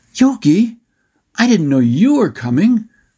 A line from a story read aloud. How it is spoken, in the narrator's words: Brock called out in his friend's Bandu language